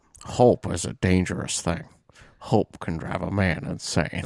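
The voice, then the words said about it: Imitates another person's voice. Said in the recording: “it definitely sounded more Sean Connery than Morgan ... I can't do a Shawshank impression.”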